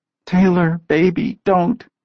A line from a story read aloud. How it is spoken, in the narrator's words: Jordan begged